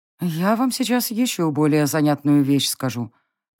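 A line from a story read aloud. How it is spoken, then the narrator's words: Gloomy confession. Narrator (Russian): призналась я мрачно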